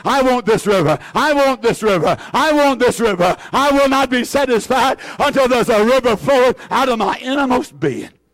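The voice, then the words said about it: Shouting, exuberant preaching. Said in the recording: “I'm shouting”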